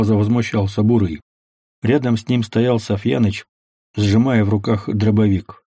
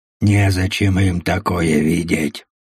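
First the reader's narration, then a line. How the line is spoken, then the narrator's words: Grumbling. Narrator (Russian): пробурчал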